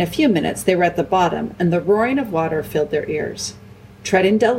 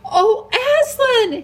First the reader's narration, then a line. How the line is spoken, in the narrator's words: he cried